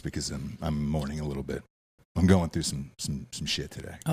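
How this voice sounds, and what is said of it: Low, subdued voice. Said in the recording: “I'm going to say this in a low voice”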